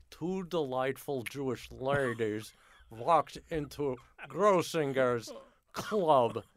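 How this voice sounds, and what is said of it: Impression of Myron Cohen. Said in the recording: “my Myron Cohen impression”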